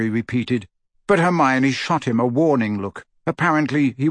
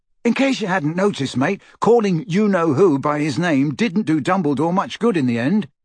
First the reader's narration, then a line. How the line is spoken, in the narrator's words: Ron snapped back